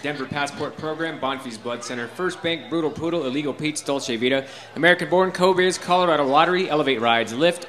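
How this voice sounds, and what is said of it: Very fast speech. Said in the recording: “I'm talking so fast”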